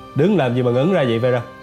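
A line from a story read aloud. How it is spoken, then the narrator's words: Sudden laugh, asking. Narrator (Vietnamese): Lâm Bác bỗng bật cười, anh hỏi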